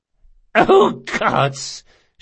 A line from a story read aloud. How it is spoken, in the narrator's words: she gasped